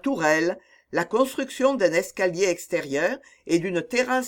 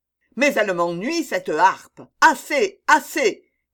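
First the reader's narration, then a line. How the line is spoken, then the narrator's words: Exasperated shouting. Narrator (French): criait le poète exaspéré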